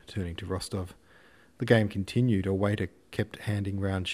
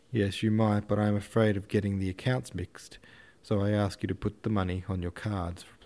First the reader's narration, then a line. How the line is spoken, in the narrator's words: replied Dolokhov